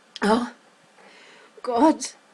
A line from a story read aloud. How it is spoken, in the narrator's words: Sam gasped